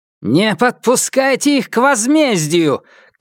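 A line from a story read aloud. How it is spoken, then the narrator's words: Widow shouting. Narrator (Russian): крикнула вдова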